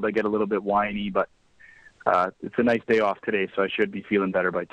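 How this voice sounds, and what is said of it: Hoarse, strained voice with a cold. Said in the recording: “sorry about my voice ... a lot of yelling this week ... I've been doing a lot of screaming ... a little bit of a head cold”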